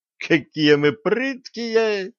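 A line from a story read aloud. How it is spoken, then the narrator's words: Young woman laughing loudly. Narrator (Russian): расхохоталась девица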